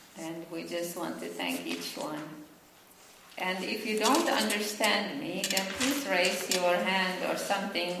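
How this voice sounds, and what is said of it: Finnish accent. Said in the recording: “I'm from Finland, and that's why I have an accent ... I never will lose my accent”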